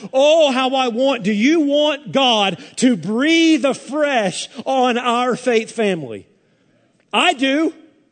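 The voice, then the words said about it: Yelling, loud preaching voice. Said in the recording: “I'm yelling”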